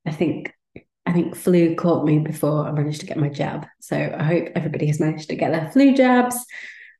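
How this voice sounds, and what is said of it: Congested voice from a cold. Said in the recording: “you might be able to tell from my voice that I've had a bit of a bad cold and cough the last few days”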